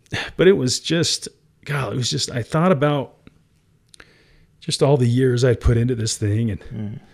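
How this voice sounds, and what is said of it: Teary, choked-up voice. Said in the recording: “I'm getting teary now”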